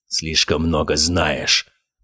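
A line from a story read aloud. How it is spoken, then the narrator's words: Growl. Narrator (Russian): прорычал Гаспар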